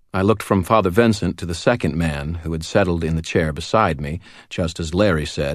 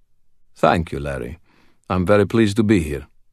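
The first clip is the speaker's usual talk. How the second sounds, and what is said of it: Slightly rough, cultured accent. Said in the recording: “Vincent's voice was a little rough, but he spoke English with the kind of cultured accent that seemed to indicate an expensive education.”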